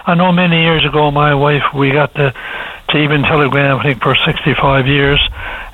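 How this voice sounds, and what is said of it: Voice sounds a bit off. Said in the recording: “my voice is a bit off because I just recovered from the flu”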